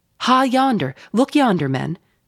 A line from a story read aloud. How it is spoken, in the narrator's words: cried a foreboding voice in her wake